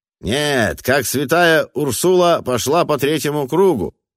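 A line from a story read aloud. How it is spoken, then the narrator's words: Yelling. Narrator (Russian): завопил другой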